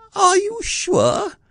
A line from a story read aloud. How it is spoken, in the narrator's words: asked Piglet anxiously